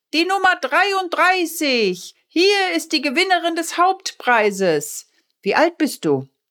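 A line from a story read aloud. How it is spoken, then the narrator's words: Firefighter calling out. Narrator (German): Der Feuerwehrmann rief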